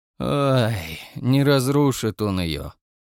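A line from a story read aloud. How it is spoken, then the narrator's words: Tired sigh, confident. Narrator (Russian): устало вздохнул сказано было уверенно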